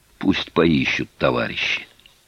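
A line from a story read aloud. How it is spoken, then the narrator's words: Urgent whisper. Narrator (Russian): цыган зашептал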